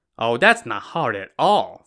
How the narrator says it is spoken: Fu An said

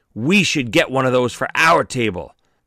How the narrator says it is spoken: Paulie's eyes lit up excitedly and said

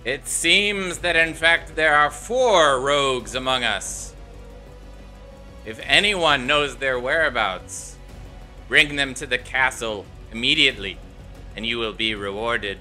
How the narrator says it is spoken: he says, his voice booms out again

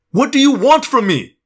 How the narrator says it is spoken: I yelled, suddenly enraged

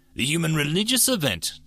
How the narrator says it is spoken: Dardus asked, choking back tears of her own

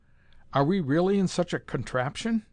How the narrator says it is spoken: faltered

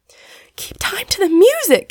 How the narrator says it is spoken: gasped Polly

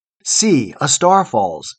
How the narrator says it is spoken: said the people

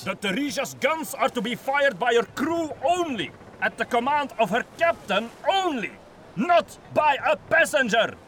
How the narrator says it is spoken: he shouted

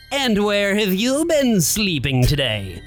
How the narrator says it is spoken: It asked with a sneer

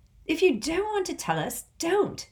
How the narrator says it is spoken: snapped Ron

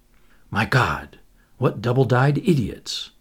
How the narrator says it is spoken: murmured Anthony to himself

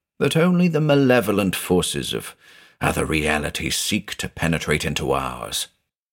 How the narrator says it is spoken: Van Melsen muttered to himself

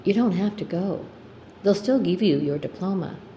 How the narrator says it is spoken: I said quietly to him

